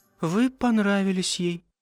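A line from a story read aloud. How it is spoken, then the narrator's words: Sad. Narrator (Russian): грустно сказала она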